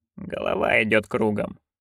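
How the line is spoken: Dull, muffled voice. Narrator (Russian): глухо промолвила матушка

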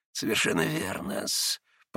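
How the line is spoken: Faltering, breaking mutter. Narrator (Russian): пробормотал уже пресекшимся голосом Смердяков

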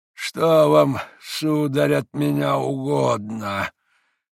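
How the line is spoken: Slow, stern but polite old man. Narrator (Russian): проговорил старик, медленно, раздельно, строго, но вежливо

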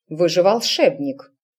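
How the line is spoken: Stern mother. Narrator (Russian): строго указала матушка

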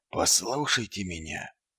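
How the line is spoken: Barely audible. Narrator (Russian): едва слышно произнес Ваймс

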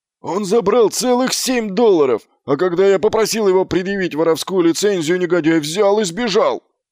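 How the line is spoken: Wailed loudly. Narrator (Russian): завопил Фланнель

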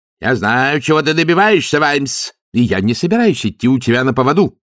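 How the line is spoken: Shouting. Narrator (Russian): выкрикнул он

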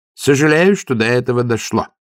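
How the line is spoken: Dry. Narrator (Russian): сухо сказал

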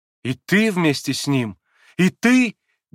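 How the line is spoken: Sorrowful exclamation. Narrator (Russian): горестно воскликнул Алеша

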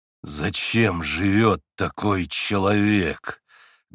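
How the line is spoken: Muffled furious growl. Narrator (Russian): глухо прорычал Дмитрий Федорович, почти уже в выступлении от гнева

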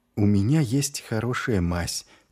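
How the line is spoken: Quiet. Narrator (Russian): тихонько сказала Шелли

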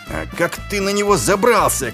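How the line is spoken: Shouted. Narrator (Russian): крикнул Ваймс

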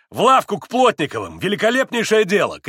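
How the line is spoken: Excited shout. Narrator (Russian): крикнул и Митя, как бы осененный какой-то мыслью

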